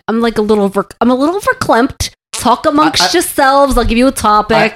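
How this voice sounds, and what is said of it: Comedic angry Jewish character voice. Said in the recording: “she did a voice ... that's the only voice she does though ... it's an angry Jew voice”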